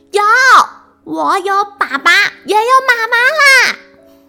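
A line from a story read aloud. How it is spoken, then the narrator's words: Angry girl shouting. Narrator (Chinese): 丫丫涨红着脸，她好生气的大叫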